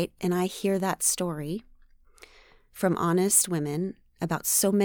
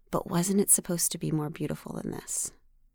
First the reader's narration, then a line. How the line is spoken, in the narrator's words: this constant whisper, just relentlessly saying to me